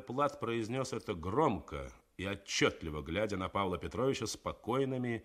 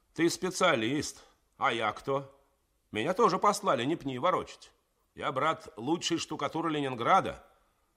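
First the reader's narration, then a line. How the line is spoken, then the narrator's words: Powerful bark. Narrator (Russian): мощно рявкнул Генька Калюжный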